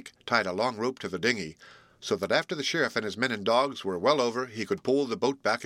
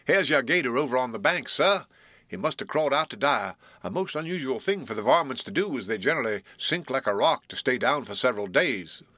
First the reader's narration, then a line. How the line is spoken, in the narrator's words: called out